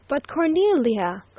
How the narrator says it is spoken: cried the doctor

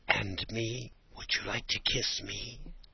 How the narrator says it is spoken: she whispered, almost inaudibly, smiling and almost crying from excitement

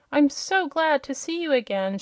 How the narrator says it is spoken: she cried

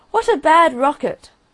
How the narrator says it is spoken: he cried

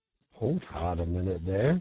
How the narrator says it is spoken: said the rat

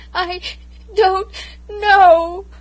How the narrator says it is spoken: I sobbed

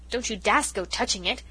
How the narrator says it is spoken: exclaimed Cousin Sophia, galvanized into animation

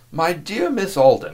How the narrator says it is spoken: exclaimed the young man

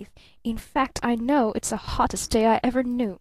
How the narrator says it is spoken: hissed Barton through clenched teeth

